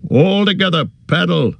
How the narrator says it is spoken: shouted Boromir

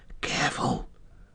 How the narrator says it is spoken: whispered Frodo

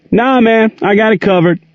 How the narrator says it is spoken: Gerald yelled back

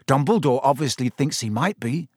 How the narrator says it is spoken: said Ron

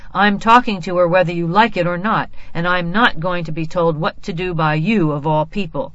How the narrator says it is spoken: Father shouted

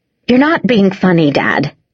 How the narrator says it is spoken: Mummy snapped

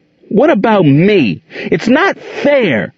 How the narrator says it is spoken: Gerald cried angrily

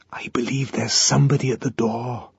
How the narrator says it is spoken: whispered

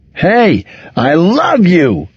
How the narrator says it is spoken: yelled

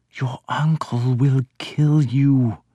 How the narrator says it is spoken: whispered

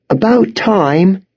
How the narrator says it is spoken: she cried

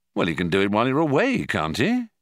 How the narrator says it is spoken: he asked

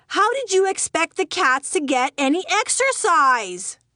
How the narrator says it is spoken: screamed back

